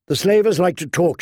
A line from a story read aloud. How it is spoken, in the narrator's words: she said